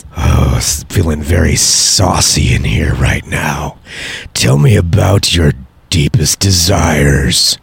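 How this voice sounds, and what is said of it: Sexy late-night radio host voice. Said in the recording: “that was a sexy late night radio voice ... say something sexy in your late night radio voice ... that was a very sexy. It's too sexy for daytime stuff.”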